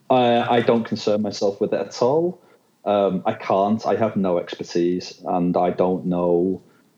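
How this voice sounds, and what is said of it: British accent. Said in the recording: “Obviously I'm British. This accent is not put on”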